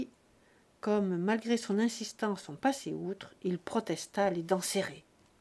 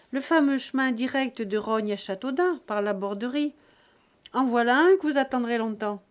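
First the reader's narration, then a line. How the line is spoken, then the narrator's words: Shout. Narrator (French): cria Buteau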